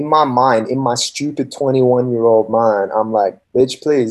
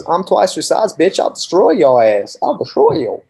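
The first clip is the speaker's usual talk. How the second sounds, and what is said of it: Put-on Southern US accent. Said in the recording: “By the southern accent”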